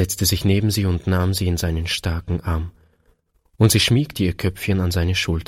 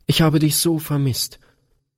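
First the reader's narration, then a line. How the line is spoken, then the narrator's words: Sobbing outburst. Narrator (German): stieß Gretchen schluchzend hervor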